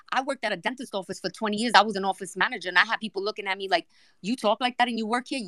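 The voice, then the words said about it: New York accent. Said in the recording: “I'm from New York. I've got an accent.”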